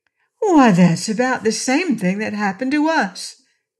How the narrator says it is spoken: cried Trot

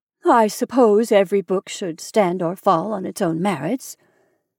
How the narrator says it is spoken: she said in an unconvinced tone

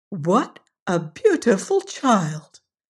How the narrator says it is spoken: they cried

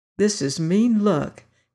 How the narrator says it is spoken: he murmured

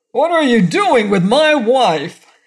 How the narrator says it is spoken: he bawled

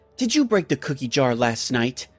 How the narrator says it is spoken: I said in an angry voice

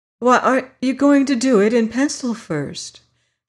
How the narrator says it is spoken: she exclaimed

